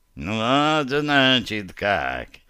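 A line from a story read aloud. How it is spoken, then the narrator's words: Curious purring. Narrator (Russian): промурлыкал он с нескрываемым любопытством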